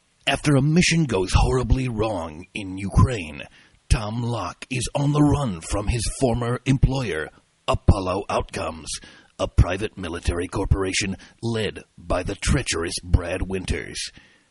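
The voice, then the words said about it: Dramatic movie trailer announcer voice. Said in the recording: “in my trailer announcer voice”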